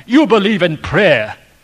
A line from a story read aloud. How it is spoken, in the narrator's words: he said